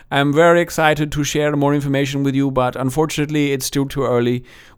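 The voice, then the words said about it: Put-on Danish accent. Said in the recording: “That's not a bad Danish accent, I have to admit.”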